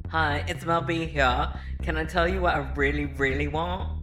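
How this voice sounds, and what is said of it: Terrible put-on British accent. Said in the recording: “Terrible British accent alert.”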